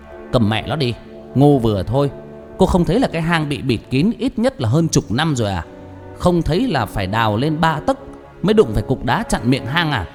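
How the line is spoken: Harsh, through gritted teeth. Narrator (Vietnamese): Tư Huyền gằn giọng

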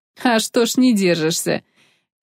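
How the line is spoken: Loud laughter, young woman. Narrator (Russian): девица расхохоталась

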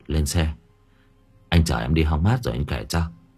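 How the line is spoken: Sighing. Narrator (Vietnamese): Bình thở dài

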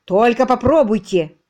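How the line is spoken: Menacing growl. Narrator (Russian): зловеще прорычал Бинго

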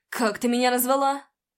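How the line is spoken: Growling. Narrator (Russian): Прорычал

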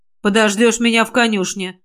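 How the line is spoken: Stern. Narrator (Russian): строго сказал он

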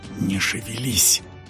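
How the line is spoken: Teenager hissing. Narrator (Russian): прошипел подросток

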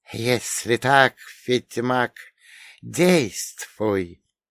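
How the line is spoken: Hissing goddess. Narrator (Russian): прошипела богиня

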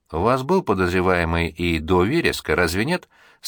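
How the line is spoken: Calm reply. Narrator (Russian): спокойно отозвался Динку

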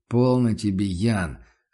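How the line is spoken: Relieved sigh. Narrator (Russian): с облегчением вздохнул Курт

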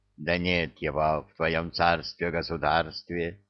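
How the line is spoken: Tired grumbling. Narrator (Russian): Устало проворчало зеркало

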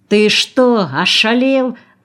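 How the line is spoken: Yelling. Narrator (Russian): заорал Прохоров

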